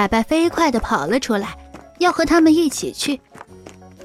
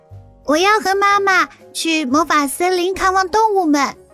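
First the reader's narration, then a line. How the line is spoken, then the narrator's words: Loud reply. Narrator (Chinese): 猫小朵大声回答他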